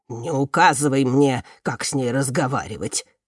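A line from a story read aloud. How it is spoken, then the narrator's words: Snapped, old man. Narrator (Russian): огрызнулся старик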